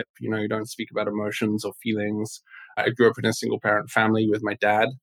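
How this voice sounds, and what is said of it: English accent. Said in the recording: “I hear an accent”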